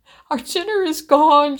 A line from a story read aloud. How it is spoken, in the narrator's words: she sobbed